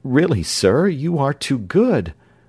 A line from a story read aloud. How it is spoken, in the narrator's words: Scythrop was not exactly prepared for this decisive step, but he could only stammer out